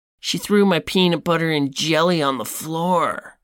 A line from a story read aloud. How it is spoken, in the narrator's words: Keith can then be heard whining